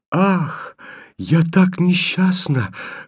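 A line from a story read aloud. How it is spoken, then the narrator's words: Barely audible whisper. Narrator (Russian): шепчет ему еле слышно Таня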